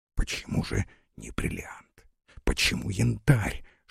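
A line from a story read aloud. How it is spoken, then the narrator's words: Amused whisper. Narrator (Russian): шептал развеселившийся Горданов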